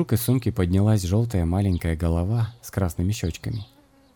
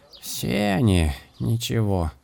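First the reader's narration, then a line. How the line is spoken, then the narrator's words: Grumbling crow. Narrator (Russian): ворчала ворона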